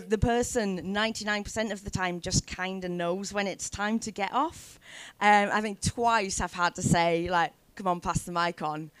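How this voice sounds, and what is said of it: Northern English accent. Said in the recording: “people may have noticed from your voice as well... your voice is not necessarily a Newcastle accent... every voice be a northern voice”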